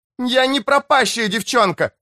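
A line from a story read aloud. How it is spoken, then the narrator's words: Shouted through a net. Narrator (Russian): выкрикнула Рен сквозь ячейки сети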